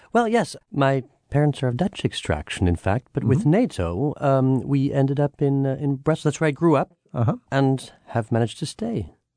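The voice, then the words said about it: American accent. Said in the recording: “you sound like you have an American accent to me.”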